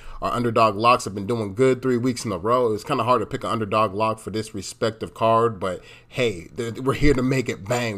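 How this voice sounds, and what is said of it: Nasal, congested voice. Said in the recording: “I sound a little nasally, ... your boy is sick”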